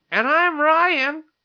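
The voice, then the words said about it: Imitates another person's voice. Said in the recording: “That's my Ryan impression”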